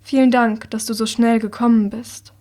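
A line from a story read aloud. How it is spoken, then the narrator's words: Calm voice. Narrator (German): sagt mit seiner ruhigen Stimme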